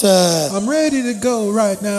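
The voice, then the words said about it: Imitates another person's singing voice. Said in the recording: “my John Legend impersonation”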